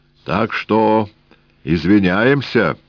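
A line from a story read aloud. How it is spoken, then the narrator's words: Deep booming bass. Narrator (Russian): прогудел густой бас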